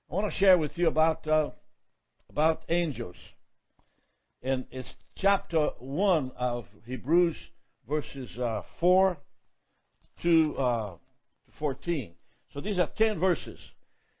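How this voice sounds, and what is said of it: Accented English, unusual intonation. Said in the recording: “I have an accent here, and my intonation at times go in the wrong place”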